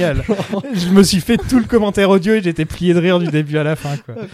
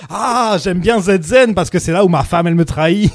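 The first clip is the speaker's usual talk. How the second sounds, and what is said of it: Imitates another person's accented voice. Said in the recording (French): “il est là avec son super accent de Arnold, il parle comme ça ... avec son accent.”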